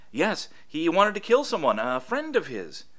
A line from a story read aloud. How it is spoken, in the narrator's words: said eagerly